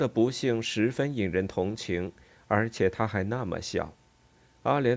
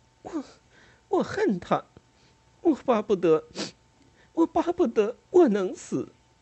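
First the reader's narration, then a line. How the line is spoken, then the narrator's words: Sobbing, breathless. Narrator (Chinese): 在抽泣中，他上气不接下气地说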